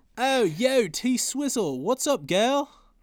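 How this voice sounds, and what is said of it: Attempted British accent sounding Australian. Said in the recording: “That sounded very Australian. ... My British accent sounds Australian.”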